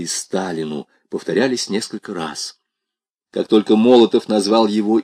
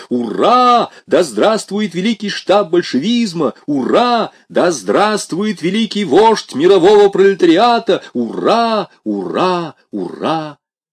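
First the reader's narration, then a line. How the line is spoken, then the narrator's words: Crowd shouting. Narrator (Russian): Все закричали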